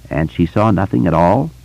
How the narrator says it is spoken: Eddie asked

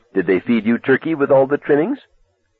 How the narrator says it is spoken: Dennis laughed

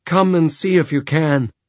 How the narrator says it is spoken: Jenna cried in a trembling voice

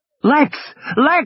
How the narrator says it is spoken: was screaming

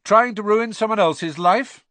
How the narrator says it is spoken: said Harry loudly

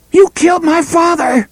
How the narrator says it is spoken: screamed at him

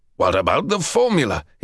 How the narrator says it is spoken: rasped

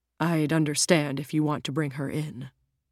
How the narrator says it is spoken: Jim says quietly, worried that his son's changed his mind

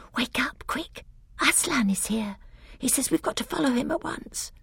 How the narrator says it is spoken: she whispered in his ear

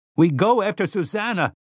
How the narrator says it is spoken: shouted

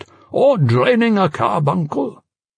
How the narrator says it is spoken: laughed

